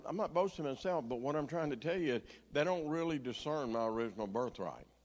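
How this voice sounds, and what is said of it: Southern American accent. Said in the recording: “your language is very Southern ... my accent”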